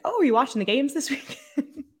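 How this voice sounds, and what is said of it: Poor imitation British accent. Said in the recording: “someone from the UK ... That wasn't a good accent.”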